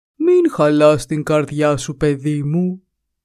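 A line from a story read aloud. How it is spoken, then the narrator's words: Tender, gentle. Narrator (Greek): της είπε τρυφερά η αγελάδα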